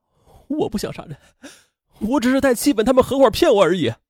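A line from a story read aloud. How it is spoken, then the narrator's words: Sobbing bitterly. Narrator (Chinese): 秦兵痛哭道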